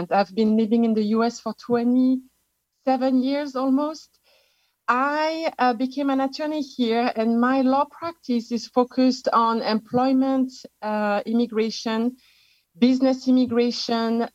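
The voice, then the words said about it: French accent. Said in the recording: “I am actually an expatriate from France. You can tell from my accent.”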